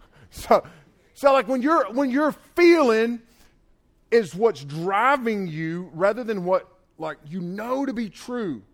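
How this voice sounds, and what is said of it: Southern US accent. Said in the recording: “Thinking, my accent, not thinking like thank you ... Southern girls, you good? All right, people not from the South, y'all tracking?”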